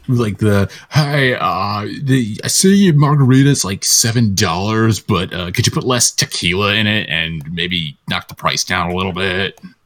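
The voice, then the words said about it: Stereotypical Californian accent. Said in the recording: “the most stereotypical California accent ... the actual, like, Californian skit”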